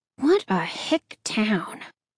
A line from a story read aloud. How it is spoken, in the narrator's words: she muttered under her breath